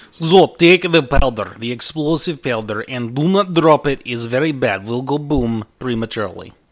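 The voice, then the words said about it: Put-on Russian accent. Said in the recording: “I'm shifting my accents here. Captain Dunharg suddenly becomes Russian.”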